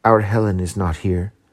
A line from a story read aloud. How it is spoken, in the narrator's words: whispered